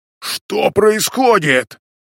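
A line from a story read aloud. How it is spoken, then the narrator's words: Growled. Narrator (Russian): прорычал один из бойцов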